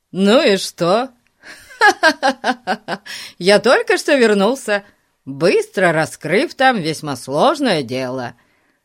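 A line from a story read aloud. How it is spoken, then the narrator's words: Laughing. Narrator (Russian): засмеялся Фати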